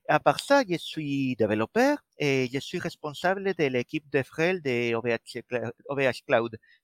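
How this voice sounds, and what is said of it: Slight Spanish accent in French. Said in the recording (French): “un léger accent quand je parle vient de fait que, que, je suis espagnol et malgré avoir passé déjà plus de vingt ans à la pointe de la Bretagne, l'accent ne part pas”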